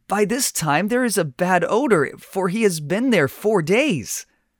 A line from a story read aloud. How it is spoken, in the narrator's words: she gasps